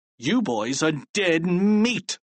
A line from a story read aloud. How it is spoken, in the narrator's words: he sneered